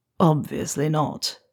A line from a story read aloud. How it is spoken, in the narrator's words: Severus replies, his voice coming out rough